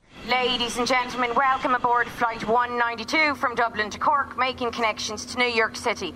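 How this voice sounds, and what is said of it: Genuine Irish accent. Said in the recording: “that's not a fake accent... actually a real accent”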